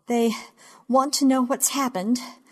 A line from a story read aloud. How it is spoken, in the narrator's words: I say, breathing too hard, much too fast, gasping